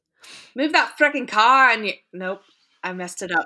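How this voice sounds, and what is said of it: Attempted Australian accent, sounds Scottish. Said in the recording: “let me take this Australian accent ... that you took us up to Scotland”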